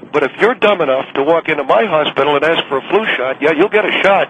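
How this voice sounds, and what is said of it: Angry, ranting delivery. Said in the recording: “You sound angry. ... Well, I am angry.”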